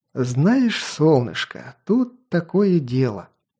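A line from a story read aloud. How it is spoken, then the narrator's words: Playful purr. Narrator (Russian): с игривой улыбкой буквально промурлыкал маньяк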